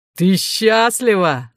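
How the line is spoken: Growl. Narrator (Russian): зарычал он

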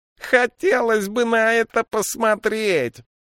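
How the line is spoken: Shout, heavy accent. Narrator (Russian): выкрикнул кто-то из толпы на Вестерлинге с ужасным акцентом

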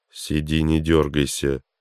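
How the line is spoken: Ordered through clenched teeth. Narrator (Russian): сквозь зубы приказал ему Стинов

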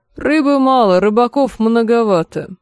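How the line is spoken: Gloomy curt retort. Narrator (Russian): мрачно отрезал лорд Пэсбери

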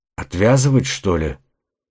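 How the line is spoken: Muttering to himself. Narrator (Russian): пробормотал Остин, похоже, обращаясь к самому себе

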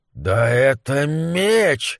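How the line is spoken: Breathless. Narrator (Russian): выдохнул он

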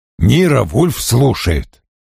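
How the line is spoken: Grumbling over the phone. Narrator (Russian): Пробурчала трубка

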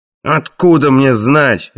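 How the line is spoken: Barking harshly. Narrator (Russian): рявкнул Краннан

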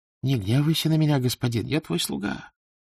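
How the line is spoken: Whisper. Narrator (Russian): прошептал толмач

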